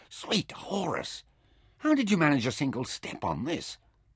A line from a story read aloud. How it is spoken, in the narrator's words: He gasped